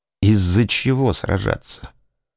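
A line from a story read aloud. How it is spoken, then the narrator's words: Slow. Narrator (Russian): медленно произнес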